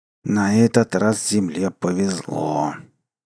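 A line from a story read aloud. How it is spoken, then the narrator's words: Through gritted teeth. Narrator (Russian): процедил сквозь зубы Мнхаал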